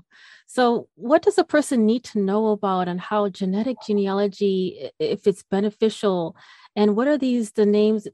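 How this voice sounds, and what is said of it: Speaks with a noticeable accent. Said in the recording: “I'm probably going to completely butcher it because of my accent.”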